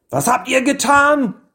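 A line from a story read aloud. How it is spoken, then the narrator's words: Yelling. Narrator (German): schrie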